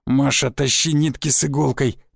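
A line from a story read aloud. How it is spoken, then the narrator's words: Hoarse wheeze. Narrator (Russian): прохрипел тесак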